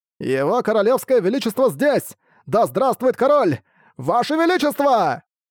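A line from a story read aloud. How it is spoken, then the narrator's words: Distant shout from crowd. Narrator (Russian): Кто-то в задних рядах прокричал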